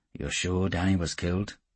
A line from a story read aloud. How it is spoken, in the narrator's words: said in a low voice